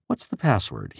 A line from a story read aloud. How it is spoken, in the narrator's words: He asked in a surprisingly kind voice